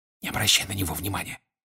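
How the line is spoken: Whispered. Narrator (Russian): шепнул ему Седрик

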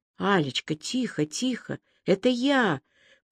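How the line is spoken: Whispering. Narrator (Russian): прошептал этот кто-то

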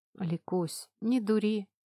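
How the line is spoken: Weary reply. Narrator (Russian): отозвался он устало

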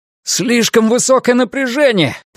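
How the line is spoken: Roaring. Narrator (Russian): проревел Брэд

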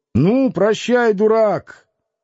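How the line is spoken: Shouted into yard. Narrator (Russian): крикнул во двор

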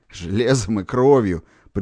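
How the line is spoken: Contemptuous snort. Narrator (Russian): презрительно фыркнул Шелугин

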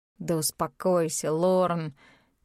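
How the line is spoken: Muffled into palms. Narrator (Russian): глухо произнес он в ладони

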